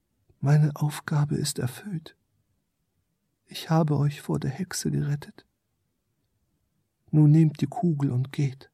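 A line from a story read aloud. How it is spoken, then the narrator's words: Small creature speaking softly. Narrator (German): Das kleine Wesen sprach leise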